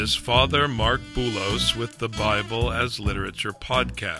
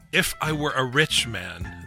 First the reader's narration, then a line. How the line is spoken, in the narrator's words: the famed Tevye exclaimed